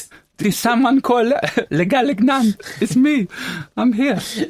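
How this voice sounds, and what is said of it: Poor French accent sounding Spanish. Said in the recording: “Should be French. ... But that's a bit Spanish accent. ... I'm not the best with accents.”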